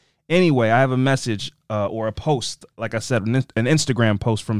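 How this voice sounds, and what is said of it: Usual voice. Nothing is said of it.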